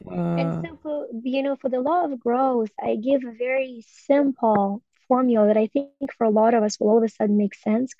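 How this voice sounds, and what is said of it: Ukrainian accent. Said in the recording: “It's a good Ukrainian accent here I'm bringing in”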